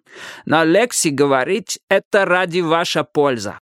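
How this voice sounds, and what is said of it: Strong foreign accent. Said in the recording (Russian): “сказал он с сильным акцентом”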